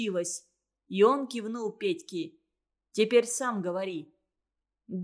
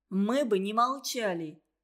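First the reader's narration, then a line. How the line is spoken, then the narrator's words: Sighing. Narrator (Russian): вздохнул Тимка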